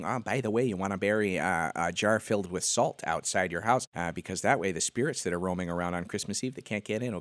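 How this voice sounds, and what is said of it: Imitates another person's voice. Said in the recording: “my Coolette impression ... Pretty good.”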